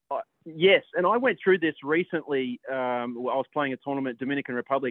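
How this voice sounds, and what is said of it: Australian accent over phone line. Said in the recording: “his audio is slightly different, but he's still got his lovely Aussie tones”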